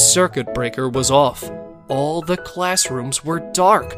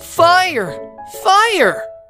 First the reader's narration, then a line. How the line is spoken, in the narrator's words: The whole class screamed